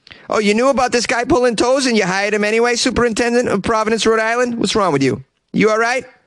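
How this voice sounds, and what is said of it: Usual voice. Nothing is said of it.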